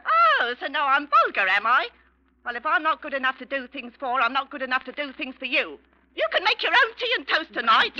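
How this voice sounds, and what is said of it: Shrill, raised shouting voice. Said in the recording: “don't raise your voice. It's vulgar. ... Don't shout at me. Don't screech.”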